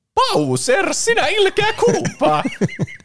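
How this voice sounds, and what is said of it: Mario character voice. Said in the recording (Finnish): “Aika hyvä Mario.”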